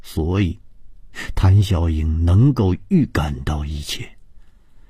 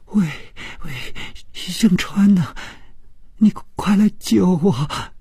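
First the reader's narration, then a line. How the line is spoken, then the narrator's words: Crying, terrified. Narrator (Chinese): 这声音充满了哭泣，并且非常的恐惧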